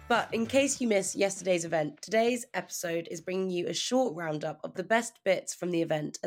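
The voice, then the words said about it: Hoarse voice. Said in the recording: “please excuse my hoarse voice because we also had the Agency of the Year Awards last night. So I think you can hear it was a bit of a late one for me.”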